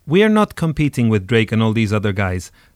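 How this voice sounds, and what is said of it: Mild put-on Swedish accent. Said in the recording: “I'm putting on some mild Swedish ... I like putting the Swedish accent”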